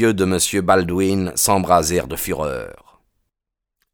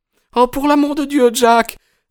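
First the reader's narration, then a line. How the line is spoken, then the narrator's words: Distraught exclamation. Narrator (French): s'écria la pauvre Etty bouleversée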